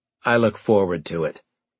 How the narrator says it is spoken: he said dryly

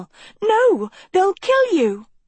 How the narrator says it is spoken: cried Sophie

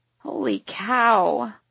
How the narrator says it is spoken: I wheeze

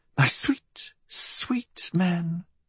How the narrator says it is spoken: she murmured

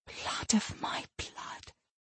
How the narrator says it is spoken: she whispered

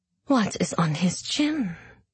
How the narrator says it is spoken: Zoya whispered to Tamar

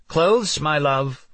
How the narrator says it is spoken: Renee yelled out

